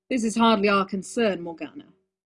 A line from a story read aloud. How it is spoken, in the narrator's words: Uther said flatly